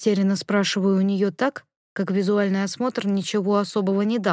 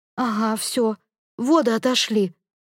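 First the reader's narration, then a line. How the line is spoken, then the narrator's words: Whimpering like helpless puppy. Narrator (Russian): Заскулила, как беспомощный щенок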